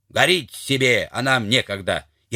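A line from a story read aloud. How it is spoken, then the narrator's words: Shout. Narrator (Russian): левша крикнул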